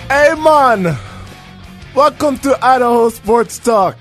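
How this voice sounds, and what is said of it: Put-on Jamaican accent. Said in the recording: “how's my Jamaican accent? ... I liked it. No, it was good. It was good.”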